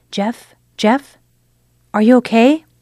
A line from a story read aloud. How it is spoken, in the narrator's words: She called out softly